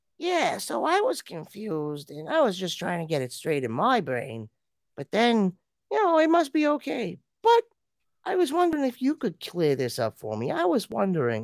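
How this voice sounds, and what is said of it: Raspy voice with an accent. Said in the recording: “raspy voice and accent”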